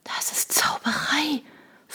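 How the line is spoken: Awed, frozen whisper. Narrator (German): flüsterte Shona, die wie gelähmt war

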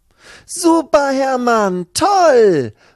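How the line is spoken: Delighted call. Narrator (German): ruft seine Freundin Lucy, die gerade um die Ecke kommt und sich sehr über diesen Anblick freut

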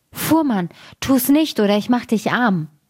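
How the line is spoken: Calling out. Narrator (German): rief er

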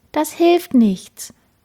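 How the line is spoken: Sad sigh. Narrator (German): seufzte Madis traurig

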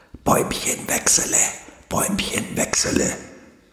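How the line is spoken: Rustling hiss of leaves. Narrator (German): zischelten nun auch alle Blätter ringsum

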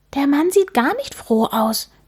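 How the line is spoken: Whispered. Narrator (German): flüstert Amelie Antonio zu

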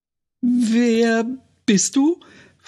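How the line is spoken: Too-loud question. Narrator (German): fragte sie zu laut

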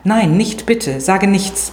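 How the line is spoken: Hasty frightened plea. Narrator (German): bat er hastig und durch meinen plötzlichen Ausbruch erschreckt

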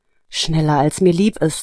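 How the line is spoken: Sighing answer. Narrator (German): antwortete Nina seufzend

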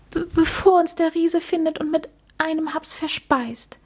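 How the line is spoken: Stuttering. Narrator (German): stotterte er

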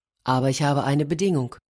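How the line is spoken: Plain. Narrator (German): sagte der Reiter

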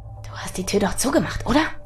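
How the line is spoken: Quiet hiss. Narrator (German): zischte er leise

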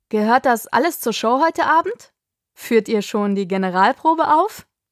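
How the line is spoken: Uncontrollable laughter. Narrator (German): Er lachte und konnte ganz offensichtlich gar nicht mehr damit aufhören

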